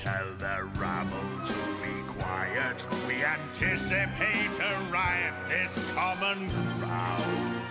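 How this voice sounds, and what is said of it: Very deep low voice. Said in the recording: “Get ready for the really deep voice.”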